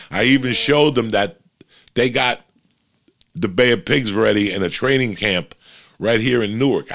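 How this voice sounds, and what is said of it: New Jersey accent. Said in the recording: “I have a Jersey accent.”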